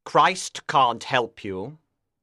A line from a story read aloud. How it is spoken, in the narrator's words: Lucifer said coldly